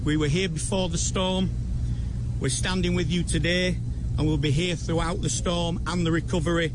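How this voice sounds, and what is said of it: Arkansas Southern US accent. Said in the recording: “You can tell ... a native of Arkansas with that accent”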